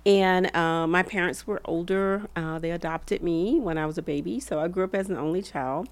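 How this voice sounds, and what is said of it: Southern US accent. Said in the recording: “the Southern accent? ... Alabama.”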